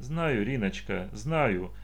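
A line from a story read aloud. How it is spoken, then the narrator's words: Sad woman. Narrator (Russian): грустно сказала женщина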